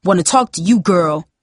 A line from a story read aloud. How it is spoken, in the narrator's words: he barked